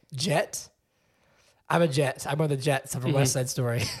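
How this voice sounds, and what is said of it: Exhausted, worn-out voice. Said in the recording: “you just can't tell because my voice is exhausted”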